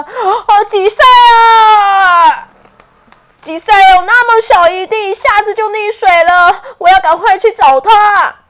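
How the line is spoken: Urgent shouting. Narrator (Chinese): 欧奇……喊道着

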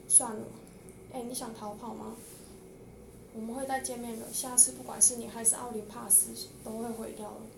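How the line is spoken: Monster murmuring. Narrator (Chinese): 怪物像是突然间想要一样，喃喃说着

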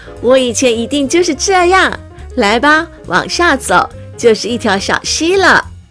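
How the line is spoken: Hearty laughter. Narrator (Chinese): 爷爷，艾玛哈哈大笑

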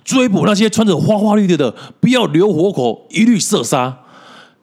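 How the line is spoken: Shouting orders. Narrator (Chinese): 我们骑兵 大叫说

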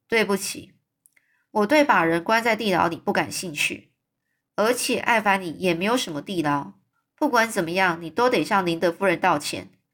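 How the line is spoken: Cold. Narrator (Chinese): 玛丽娜她冷冷的说

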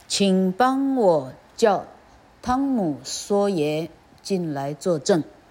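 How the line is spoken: Slow speech. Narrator (Chinese): 他的律师缓缓地说

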